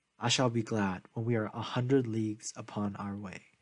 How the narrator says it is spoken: said

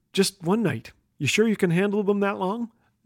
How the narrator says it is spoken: whispered

